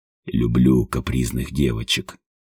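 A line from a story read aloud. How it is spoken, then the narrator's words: Husky mutter. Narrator (Russian): хрипловато пробормотал он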